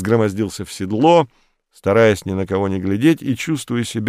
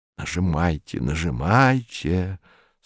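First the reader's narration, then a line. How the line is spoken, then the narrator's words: Passionate whisper. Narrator (Russian): страстно шептал докладчик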